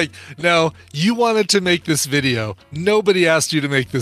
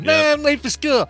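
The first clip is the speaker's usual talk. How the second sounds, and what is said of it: Imitates a kid's voice. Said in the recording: “my impersonation of a kid who's late for school talking to his mom”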